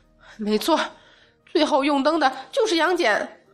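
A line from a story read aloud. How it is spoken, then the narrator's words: Furious cry. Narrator (Chinese): 沉香已经恼怒无比的叫出声来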